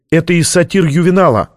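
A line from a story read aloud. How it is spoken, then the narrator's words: Exclaimed. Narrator (Russian): воскликнула она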